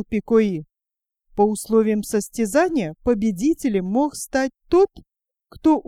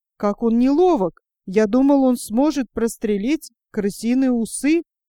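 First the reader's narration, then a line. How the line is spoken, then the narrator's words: Exclaimed. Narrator (Russian): Пико-И воскликнул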